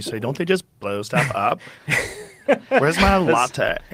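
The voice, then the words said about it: Imitates another person's voice. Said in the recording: “That's a weirdly good impression”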